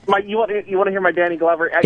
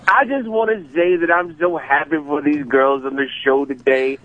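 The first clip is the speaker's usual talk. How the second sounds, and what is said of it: Imitates another person's voice. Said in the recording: “your Danny Glover impression ... my Danny Glover”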